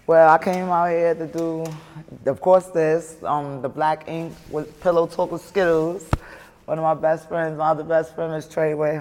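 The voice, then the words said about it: Heavy Brooklyn New York accent. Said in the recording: “with the heavy accent, we know you not from the city ... growing up in Brooklyn, New York”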